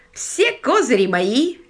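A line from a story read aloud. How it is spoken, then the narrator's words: Cheerful exclamation. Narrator (Russian): весело воскликнул он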